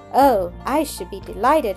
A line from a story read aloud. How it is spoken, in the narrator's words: Mildred exclaimed, her cheeks glowing, her eyes sparkling